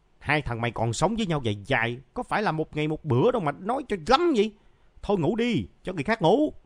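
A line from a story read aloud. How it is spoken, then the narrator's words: Irritated shouting. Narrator (Vietnamese): Trường phát bực, phải quát lên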